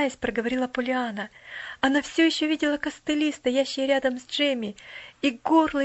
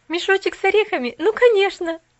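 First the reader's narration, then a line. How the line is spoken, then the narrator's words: Laughing. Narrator (Russian): засмеялась Пуляна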